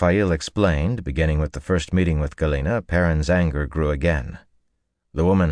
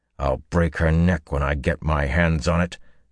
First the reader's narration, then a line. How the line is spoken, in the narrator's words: he growled